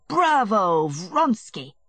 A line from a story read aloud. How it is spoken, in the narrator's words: shouted Petritsky